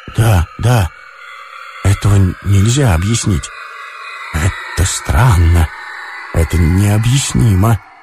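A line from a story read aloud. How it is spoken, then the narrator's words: Muffled happy quiet voice. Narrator (Russian): Ромашов повторял глухим, счастливым, тихим голосом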